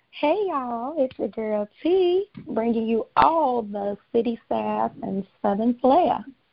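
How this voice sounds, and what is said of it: Southern twang in voice. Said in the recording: “Did you put a twang? Did you put a twang on it? ... It was a little bit of a twang on there.”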